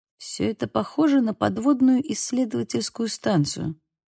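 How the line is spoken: Muttering. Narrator (Russian): пробормотал Бейл

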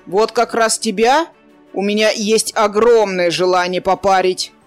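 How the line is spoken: Barked. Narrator (Russian): гаркнул Кудьяр

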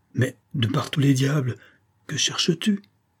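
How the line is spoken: Exclaimed. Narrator (French): s'écria Leblanc, qui l'avait suivi dans toutes ses excursions sans y rien comprendre

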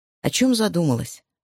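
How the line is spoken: Plain. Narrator (Russian): спросил ее Дэнни

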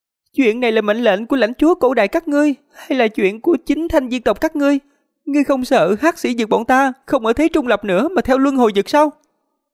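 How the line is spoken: Furious yelling. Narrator (Vietnamese): tộc trưởng Thứ Cốt tộc nhìn muốn rách cả mí mắt ra, kêu gào không thôi

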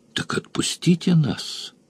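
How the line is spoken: Barely audible. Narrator (Russian): сказала я чуть слышно

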